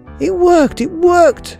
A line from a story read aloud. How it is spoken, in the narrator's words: cried